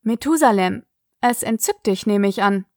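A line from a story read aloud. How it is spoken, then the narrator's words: Dry remark. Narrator (German): bemerkte Sig trocken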